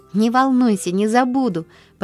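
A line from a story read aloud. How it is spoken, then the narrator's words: Happy, confident promise. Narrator (Russian): пообещала Поллианна радостно, уверенная на этот раз, что выиграла дело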